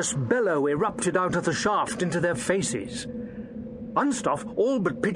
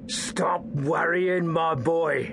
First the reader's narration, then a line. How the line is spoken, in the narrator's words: Garron rasped in a menacing tone